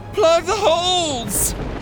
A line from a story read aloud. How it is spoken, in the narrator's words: her mom screamed